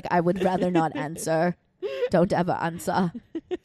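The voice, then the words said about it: Imitation with slight German sound. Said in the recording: “That's a great Olivia impression. A little German sound.”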